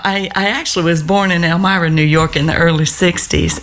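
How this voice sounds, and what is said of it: Southern American accent. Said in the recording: “you sound like a Southern belle”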